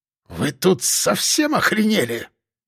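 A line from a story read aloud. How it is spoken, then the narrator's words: Hissing. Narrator (Russian): шипел полковник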